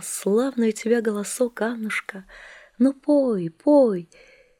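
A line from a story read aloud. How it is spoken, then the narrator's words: Weak voice. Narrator (Russian): говорит слабым голосом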